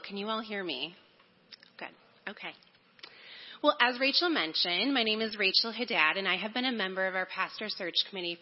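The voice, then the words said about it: Hoarse, fading voice. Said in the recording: “I'm losing my voice a little.”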